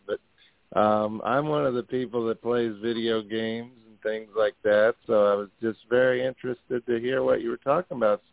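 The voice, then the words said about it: Voice sounding off from a cold. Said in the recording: “I have a cold right now. Sorry if my voice sounds a little weird”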